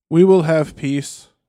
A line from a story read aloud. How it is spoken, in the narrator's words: said Théoden at last thickly with an effort